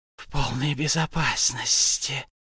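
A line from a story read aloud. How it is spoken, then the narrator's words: Muttered whisper to himself. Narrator (Russian): шептал он себе под нос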